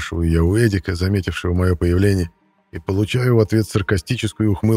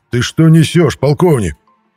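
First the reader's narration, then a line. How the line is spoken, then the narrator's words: Roar. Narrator (Russian): взревел Мирон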